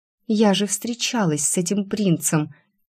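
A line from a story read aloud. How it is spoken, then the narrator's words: Soft laughing. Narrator (Russian): Тихо рассмеялась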